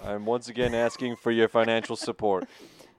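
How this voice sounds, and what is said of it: Bernie Sanders impression. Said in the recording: “I think mine was more of a Bernie. I was leaning more of a Bernie accent”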